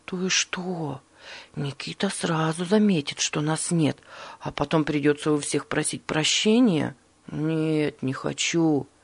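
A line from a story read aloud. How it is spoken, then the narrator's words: Frightened muttering. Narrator (Russian): испуганно пробормотал Борис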